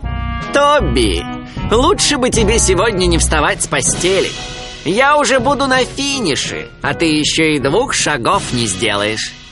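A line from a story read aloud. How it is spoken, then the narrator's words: Laughing. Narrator (Russian): Макс Заяц тоже засмеялся и сказал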